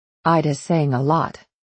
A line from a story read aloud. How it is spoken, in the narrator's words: I snapped